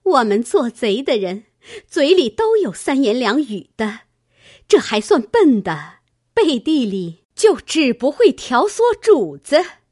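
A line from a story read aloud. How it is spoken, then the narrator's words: Sneering. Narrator (Chinese): 探春冷笑道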